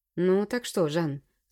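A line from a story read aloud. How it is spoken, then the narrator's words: Calm question. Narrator (Russian): спокойно спросил я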